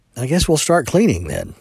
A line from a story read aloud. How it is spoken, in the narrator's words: Landry said